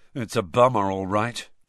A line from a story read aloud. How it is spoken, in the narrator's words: George was saying gloomily to Fred